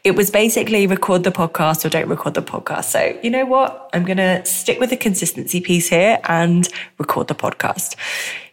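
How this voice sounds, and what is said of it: Sniffly, congested voice from cold. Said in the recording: “you might hear in my voice, I'm a little bit on the sniffly side of a cold”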